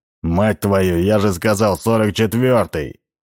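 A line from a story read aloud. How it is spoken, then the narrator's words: Surprising bark. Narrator (Russian): Рявкнул он, всех удивив своим тоном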